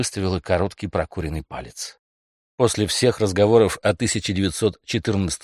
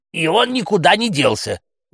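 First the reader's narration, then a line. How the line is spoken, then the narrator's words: Shouting out. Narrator (Russian): выкрикнула Макласки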